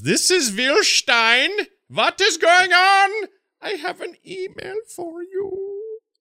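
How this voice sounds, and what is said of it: Put-on German accent. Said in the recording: “He wanted me to do it in a German accent.”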